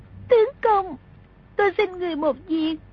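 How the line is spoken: Sobbing. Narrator (Vietnamese): Song Nhi nức nở nói

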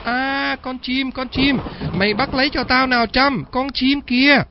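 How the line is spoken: Shrieking cry. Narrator (Vietnamese): Nga kêu rú lên

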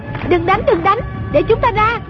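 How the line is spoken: Shouting. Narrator (Vietnamese): Trung Linh la lên

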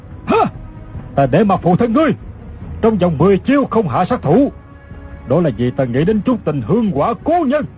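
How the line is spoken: Shouting. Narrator (Vietnamese): Cừu Ma Trí quát lên

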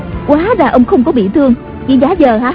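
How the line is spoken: Surprised and angry. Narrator (Vietnamese): Tần Hồng Miên ngạc nhiên giận dữ nói

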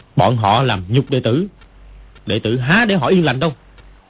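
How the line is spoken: Angry. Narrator (Vietnamese): Dương Quá tức giận nói

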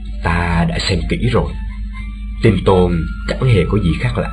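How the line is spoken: Sighing, slow reply. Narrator (Vietnamese): Đạo Huyền Chân Nhân thở dài, chậm rãi đáp

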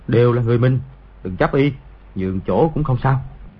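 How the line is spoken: Soft murmur. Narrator (Vietnamese): Lý Lực Thế khẽ nói

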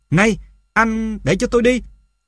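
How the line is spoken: Shouted. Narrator (Vietnamese): Tôi la lên

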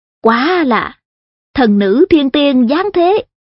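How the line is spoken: Smiling praise. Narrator (Vietnamese): Trác mỉm cười khen

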